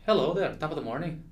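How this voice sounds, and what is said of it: Poor put-on Irish accent. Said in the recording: “How's my Irish accent? ... Is that Irish? ... No. ... Not at all”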